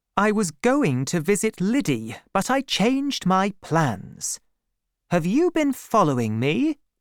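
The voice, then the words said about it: Cold, unfriendly speaking voice. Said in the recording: “said Bathsheba in a cold voice.”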